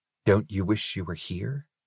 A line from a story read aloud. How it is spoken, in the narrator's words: he whispered